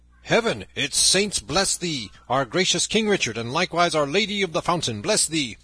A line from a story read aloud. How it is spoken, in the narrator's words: above all the tumult and the shouting, a great voice was heard roaring